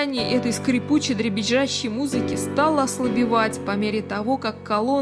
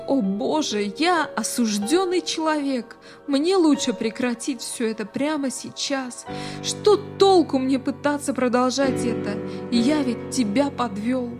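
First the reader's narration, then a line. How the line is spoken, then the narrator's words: Pleading. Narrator (Russian): он взмолился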